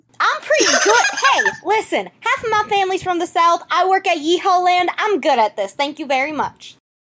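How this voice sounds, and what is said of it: Character voice with country southern twang. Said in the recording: “Honeydew definitely has that little bit of a twang because she got it from her mama ... not as smooth, not as sweet ... like a country twang ... southern accents ... And that is Honeydew's voice.”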